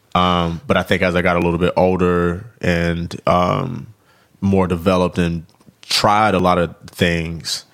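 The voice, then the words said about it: Hard-to-place Southern US accent. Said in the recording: “you can kind of hear in my accent that you can't quite pick up on like exactly where it is... It's Southern, but it's like, what is it again?... I can't sound exactly like some of the dudes that's on the radio, because it's not the exact same accent... Even though it's Southern”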